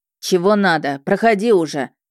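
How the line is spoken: Rough call, burly man. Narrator (Russian): Грубо окликнул меня дюжий мужик в спецовке

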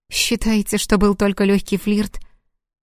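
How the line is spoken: Calm, impassive. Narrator (Russian): Платон в той же непробиваемой манере хотел спокойно ответить

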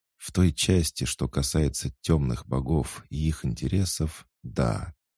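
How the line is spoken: Priest's quiet confirmation. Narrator (Russian): тихо подтвердил жрец

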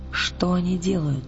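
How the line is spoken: Whisper. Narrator (Russian): прошептала она

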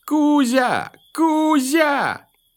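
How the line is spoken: Shouting through the forest. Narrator (Russian): кричали по всему лесу

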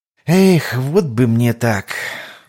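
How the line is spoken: Sighing. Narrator (Russian): вздохнул Лотар

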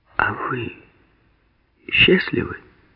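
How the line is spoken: Serious quiet question. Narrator (Russian): Серьезно и тихо спросила

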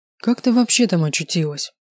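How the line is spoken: Weary sigh. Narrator (Russian): Устало вздохнул Таир

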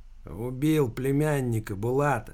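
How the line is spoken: Lazy bandit. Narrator (Russian): лениво ответил бандит

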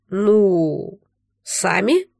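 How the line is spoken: Uncertain drawl. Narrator (Russian): неуверенно протянул Дарьян

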